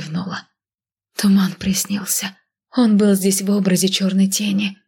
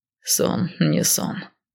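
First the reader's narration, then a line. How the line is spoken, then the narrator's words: Hoarse sleepy voice. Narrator (Russian): хриплым ото сна голосом произнес Риган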